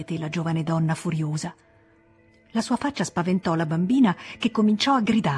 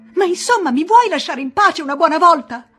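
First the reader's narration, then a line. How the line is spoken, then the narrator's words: Woman starts shouting. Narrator (Italian): Si mise a gridare anche lei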